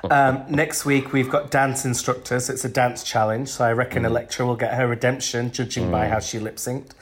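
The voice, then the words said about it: Hoarse, congested, bunged-up voice. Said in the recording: “losing my voice... I've been a bit poorly this week. I don't know if you can tell. I'm a bit bunged up... no choking, coughing, snot”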